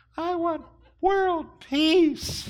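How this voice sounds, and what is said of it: Put-on girl voice. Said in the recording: “that's the best girl voice I can do”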